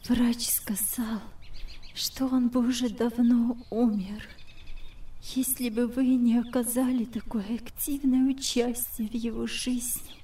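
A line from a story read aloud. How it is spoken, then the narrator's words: Tearful whisper. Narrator (Russian): прошептала сквозь слезы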